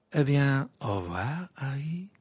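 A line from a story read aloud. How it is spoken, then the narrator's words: Cheerful call. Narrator (French): lança Rita Skeeter d'un ton joyeux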